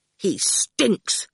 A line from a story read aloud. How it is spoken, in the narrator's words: Howard said angrily